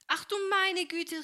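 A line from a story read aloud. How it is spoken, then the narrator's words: Startled cry. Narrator (German): rief Helene, als sich das Wasser über ihr ergoss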